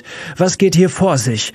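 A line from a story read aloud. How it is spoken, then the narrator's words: Shouting across classroom. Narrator (German): schrie Miss Thatcher durch den Klassenraum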